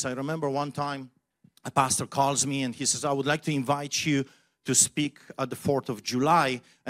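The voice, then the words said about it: Polish accent. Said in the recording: “the Polish man with a funny accent”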